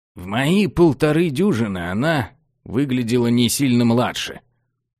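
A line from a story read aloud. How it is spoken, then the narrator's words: Grumbling. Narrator (Russian): проворчал собеседник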